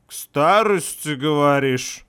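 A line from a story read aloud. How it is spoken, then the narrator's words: Drunken slurring voice. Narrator (Russian): пьяным голосом начал заплетать второй стражник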